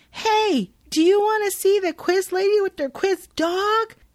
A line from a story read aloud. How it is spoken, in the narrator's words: Jenny does what she does best, which is leap onto the stage in front of the audience and yell at them